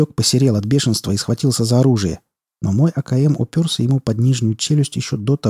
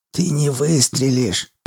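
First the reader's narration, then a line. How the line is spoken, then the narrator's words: Hissing. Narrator (Russian): прошипел Урюк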